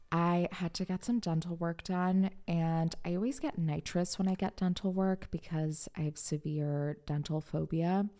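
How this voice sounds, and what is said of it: Nasal-sounding voice. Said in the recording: “I sound a little nasally today”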